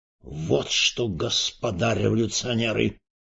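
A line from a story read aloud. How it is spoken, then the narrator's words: Menacing announcement. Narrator (Russian): грозно объявил Эрос Петрович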